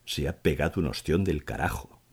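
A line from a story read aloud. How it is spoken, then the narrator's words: Murmured. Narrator (Spanish): murmuró Pita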